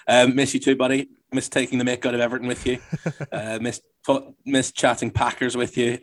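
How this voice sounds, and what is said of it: Northern Irish accent. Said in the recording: “you fall in love with that Northern Irish accent”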